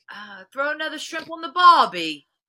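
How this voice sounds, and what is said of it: Bad attempt at Australian accent. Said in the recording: “I try to do an Australian accent. I don't even know what that was. That wasn't Australian at all... Bad. That was bad. Awful... That was a little scary”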